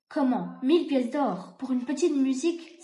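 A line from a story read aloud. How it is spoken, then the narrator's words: Exclaiming. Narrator (French): s'exclama le bourgmestre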